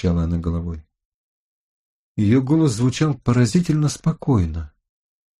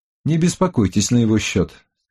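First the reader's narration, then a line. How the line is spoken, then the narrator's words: Plain. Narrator (Russian): сказал я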